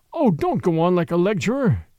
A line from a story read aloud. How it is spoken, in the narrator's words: groaned Flambeau